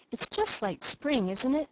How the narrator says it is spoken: asked Felicity

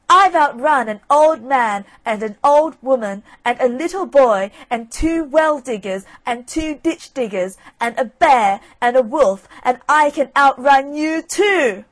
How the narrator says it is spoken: Johnny Cake came up close, and leaning towards the fox, screamed out

